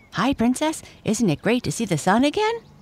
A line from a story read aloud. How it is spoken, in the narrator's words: chirped Lucy, a corgi, and definitely the most fun-loving dog of the group